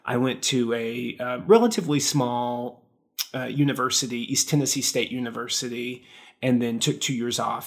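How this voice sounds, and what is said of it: Rural Appalachian American accent. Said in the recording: “If my accent doesn't betray it, I'm from rural Appalachia.”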